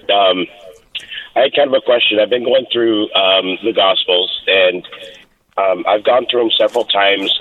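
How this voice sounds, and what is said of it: Voice affected by a cold. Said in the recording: “pardon my voice. I'm catching a little bit of a cold here.”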